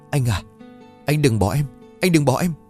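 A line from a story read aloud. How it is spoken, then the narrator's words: Trembling plea. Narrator (Vietnamese): tôi run rẩy gọi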